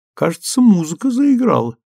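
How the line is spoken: Laughing. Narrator (Russian): рассмеялась Эллен

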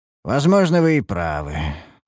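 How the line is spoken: Sigh. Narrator (Russian): вздохнул я

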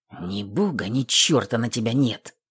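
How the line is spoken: Grumbling mutter. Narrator (Russian): пробурчал друг

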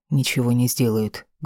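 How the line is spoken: Rough answer. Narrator (Russian): грубо ответил

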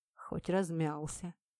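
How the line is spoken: Muttering. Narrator (Russian): пробормотал Сухен

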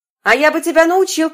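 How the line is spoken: Small boy shouting. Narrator (Russian): крикнул мальчик с пальчик

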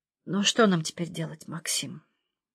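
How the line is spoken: Barely audible question. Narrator (Russian): еле слышно спросила Людмила Георгиевна

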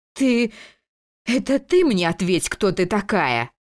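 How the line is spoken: Haughty laughter. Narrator (Russian): Беатрича надменно расхохоталась

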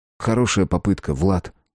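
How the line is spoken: Calm. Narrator (Russian): спокойно сказал он

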